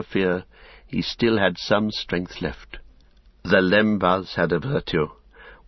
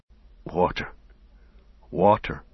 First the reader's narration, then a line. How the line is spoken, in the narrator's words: muttered Sam